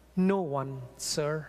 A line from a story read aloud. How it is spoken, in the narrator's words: Her voice quivered as she said